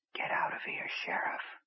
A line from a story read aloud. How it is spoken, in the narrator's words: he whispered